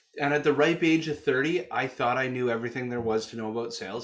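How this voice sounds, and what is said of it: Canadian accent. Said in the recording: “You'll hear my Canuck accent here along the journey.”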